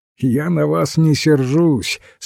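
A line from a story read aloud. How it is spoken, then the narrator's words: Laughing. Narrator (Russian): смеялся он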